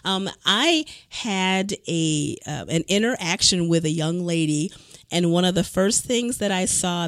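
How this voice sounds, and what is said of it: Unusually low, cold-affected voice. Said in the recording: “I'm not trying to have a new fancy radio voice. I'm getting over a cold, so I've got a few extra decibels lower here”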